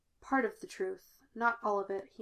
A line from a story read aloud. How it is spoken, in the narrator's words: he murmured